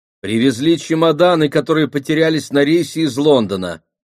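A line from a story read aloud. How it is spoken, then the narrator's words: Loud announcement. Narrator (Russian): громко объявила голова в зал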